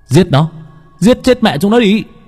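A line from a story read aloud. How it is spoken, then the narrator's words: Crowd yelling. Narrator (Vietnamese): hò hét để dọa bầy chó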